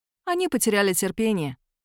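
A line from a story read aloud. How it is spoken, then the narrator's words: Calm. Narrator (Russian): спокойно отвечает Ники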